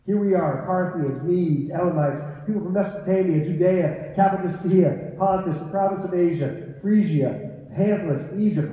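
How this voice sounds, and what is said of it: Out of breath while reading. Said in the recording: “Oh my gosh, I'm running out of breath.”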